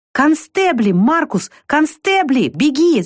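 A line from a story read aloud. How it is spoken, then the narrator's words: Shouting. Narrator (Russian): закричал Лукас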